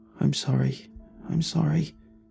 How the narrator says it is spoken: All she could mumble was

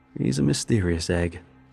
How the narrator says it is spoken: Jacobs chuckled

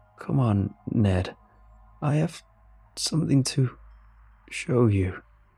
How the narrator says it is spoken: it stammered, like it was still trying to figure out how to work its tongue

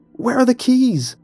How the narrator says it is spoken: cried

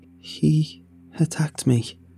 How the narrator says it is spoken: she said shakily, fear playing across her face

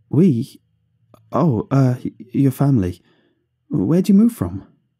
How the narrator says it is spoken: I stuttered

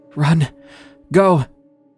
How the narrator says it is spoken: he gasped

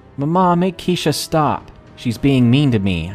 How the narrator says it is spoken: I cried

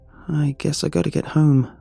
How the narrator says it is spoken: I sighed

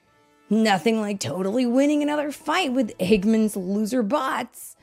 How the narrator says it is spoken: Sonic said, his friends laughing

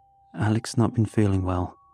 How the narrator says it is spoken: said

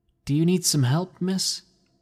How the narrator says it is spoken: I asked nervously

